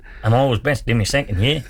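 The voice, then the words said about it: Put-on Australian accent. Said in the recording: “That's a pretty good Australian.”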